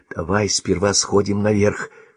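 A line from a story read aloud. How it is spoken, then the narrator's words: Whisper. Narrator (Russian): шепотом сказала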